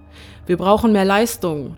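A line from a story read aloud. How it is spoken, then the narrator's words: Shouting. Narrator (German): schreit der Pilot im Cockpit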